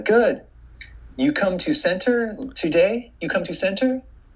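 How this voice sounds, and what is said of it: Put-on Korean accent. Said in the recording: “she was even t- speaking in an, in a Korean accent.”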